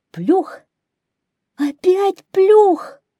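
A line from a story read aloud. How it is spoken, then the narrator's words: Shouting hare. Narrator (Russian): крикнул серый заяц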